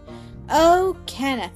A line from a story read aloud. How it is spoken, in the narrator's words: she cried